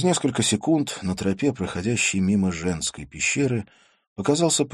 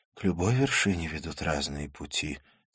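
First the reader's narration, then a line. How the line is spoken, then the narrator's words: Quiet female voice. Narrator (Russian): тихо сказала она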